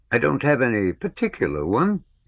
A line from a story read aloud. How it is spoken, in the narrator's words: he said in a thin voice, as if mimicking someone